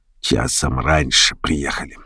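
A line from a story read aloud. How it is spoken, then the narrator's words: Barely audible. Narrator (Russian): Кучер сказал так тихо, что я еле расслышал его слова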